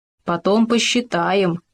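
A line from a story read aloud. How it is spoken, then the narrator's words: Mutter. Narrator (Russian): бормотал он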